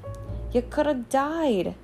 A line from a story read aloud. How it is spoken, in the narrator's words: sobbed Hagrid